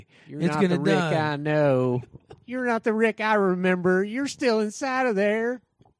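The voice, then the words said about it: Imitated character with Southern drawl. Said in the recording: “That's my Morgan impression ... Your Morgan sounds more like Trace Atkins. I mean, it sounds more like Toby Keith ... super cool Southern accent”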